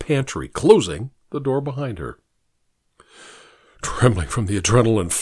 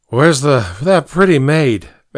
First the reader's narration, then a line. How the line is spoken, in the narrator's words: asked the familiar, slurred voice